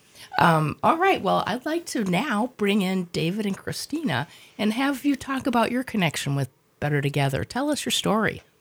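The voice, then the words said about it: Deeper, congested sick-sounding voice. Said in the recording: “apologize for my voice ... I'm just recovering from what you can hear is a cough and a cold. So if I've gone down a register or two”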